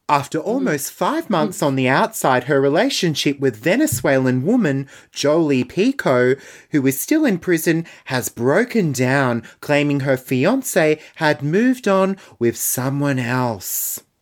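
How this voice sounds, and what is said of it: Sandra Sully newsreader voice impression. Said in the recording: “I'll try to read this in my best Sandra Sully voice.”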